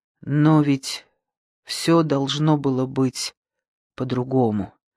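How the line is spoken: Quiet. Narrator (Russian): сказала она тихо

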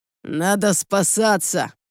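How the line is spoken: Growl. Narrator (Russian): рыкнул Сил

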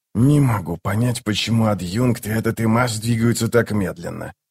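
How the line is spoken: Repeated muttering. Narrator (Russian): пробормотал Ток, уже, наверное, в 12-й раз с утра

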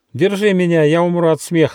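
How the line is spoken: Young squirrel shouting. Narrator (Russian): закричал бельчонок

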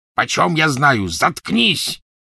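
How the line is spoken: Rough barking voice. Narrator (Russian): рявкнул грубый голос

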